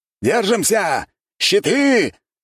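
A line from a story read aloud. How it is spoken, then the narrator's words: Shouting officer. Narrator (Russian): кричал какой-то офицер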